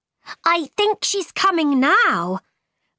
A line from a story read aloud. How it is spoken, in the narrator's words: cried the tiger lily